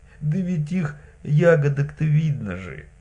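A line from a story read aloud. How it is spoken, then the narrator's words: Convinced exclamation. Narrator (Russian): убежденно воскликнула Марья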